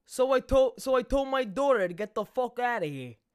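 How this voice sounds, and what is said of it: Put-on New York accent. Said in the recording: “Try your best. I never heard you say a New York accent ... That ain't bad. ... Pretty good”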